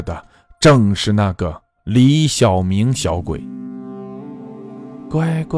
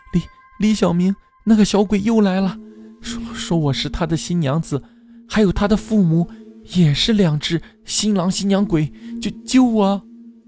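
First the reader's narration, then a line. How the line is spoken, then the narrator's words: Terrified sobbing. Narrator (Chinese): 绷紧的神经突然崩溃了，花容失色，大哭起来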